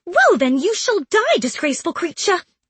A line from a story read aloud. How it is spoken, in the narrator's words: replied Dubois angrily